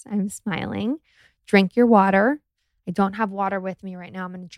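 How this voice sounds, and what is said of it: Smiling while speaking. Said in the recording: “I'm currently smiling. Can you hear it in my voice?”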